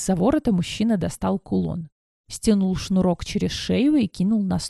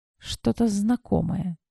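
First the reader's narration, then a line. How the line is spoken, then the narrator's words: Quiet. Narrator (Russian): тихо произнесла я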